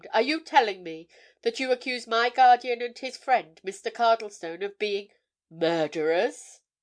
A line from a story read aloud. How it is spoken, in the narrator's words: exclaimed